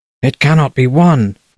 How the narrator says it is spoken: the Queen growled

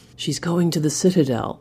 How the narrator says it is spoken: Lector whispered from his back

